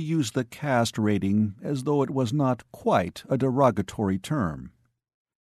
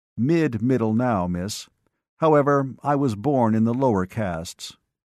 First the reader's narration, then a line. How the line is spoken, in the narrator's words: He said very evenly